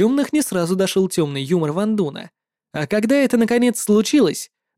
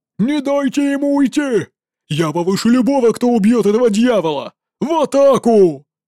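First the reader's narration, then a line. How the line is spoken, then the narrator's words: Yelling. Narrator (Russian): заорал Джи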